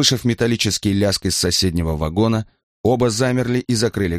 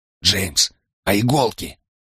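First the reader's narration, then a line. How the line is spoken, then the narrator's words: Quiet question. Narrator (Russian): тихо спросил Брайан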